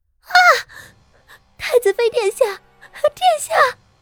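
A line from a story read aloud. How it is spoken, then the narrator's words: Shouting. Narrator (Chinese): 一臂喊着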